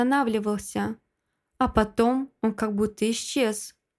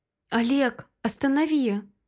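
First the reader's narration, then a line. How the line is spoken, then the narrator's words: Hoarse whisper. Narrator (Russian): шепчу вмиг севшим голосом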